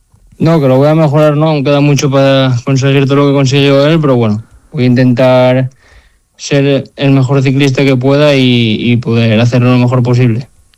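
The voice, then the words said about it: Asturian Spanish accent. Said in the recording (Spanish): “Me gusta mucho tu acento, ¿eh? Asturiano.”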